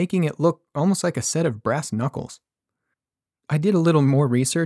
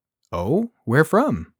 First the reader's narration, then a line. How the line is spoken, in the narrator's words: I asked